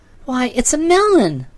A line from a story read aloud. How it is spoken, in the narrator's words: cried Trot delightedly